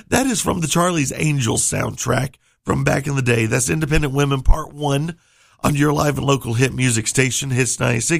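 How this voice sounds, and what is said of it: Strained, failing voice. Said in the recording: “I'm losing my voice”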